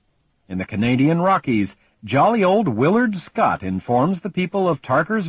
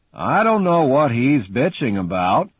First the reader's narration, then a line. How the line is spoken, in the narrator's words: Pucky says sullenly